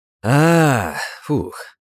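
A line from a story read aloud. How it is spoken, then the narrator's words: Drawn out. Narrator (Russian): протянул Федя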